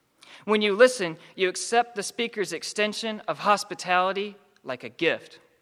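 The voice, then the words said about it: Southern American accent. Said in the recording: “those with Southern accents ... my accent is inherently a gift”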